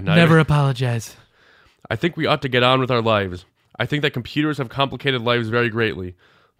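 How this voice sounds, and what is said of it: Donald Trump impression. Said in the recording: “my Trump accent isn't quite as good as yours”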